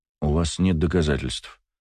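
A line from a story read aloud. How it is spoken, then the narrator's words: Calm man. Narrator (Russian): спокойно произнес мужчина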